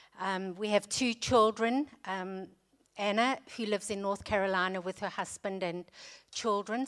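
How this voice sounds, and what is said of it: South African accent. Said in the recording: “you can hear from my accent that I'm not British ... We were born and raised in South Africa”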